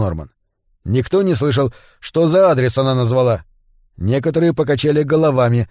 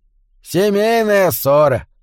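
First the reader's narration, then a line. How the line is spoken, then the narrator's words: Snort. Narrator (Russian): хмыкнул какой-то тип в толпе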